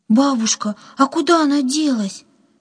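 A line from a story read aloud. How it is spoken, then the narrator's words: Frightened question. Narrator (Russian): испуганно спросила Катя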